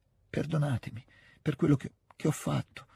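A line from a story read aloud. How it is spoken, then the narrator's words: Broken, barely audible murmur. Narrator (Italian): disse Natasha con un mormorio interrotto e appena percettibile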